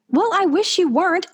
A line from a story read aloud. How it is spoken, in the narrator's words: I shout over him